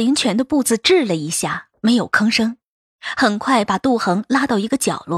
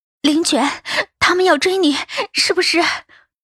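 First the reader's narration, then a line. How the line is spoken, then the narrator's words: Nervous breathless question. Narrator (Chinese): 杜恒的心几乎要跳了出来，他气喘吁吁地问着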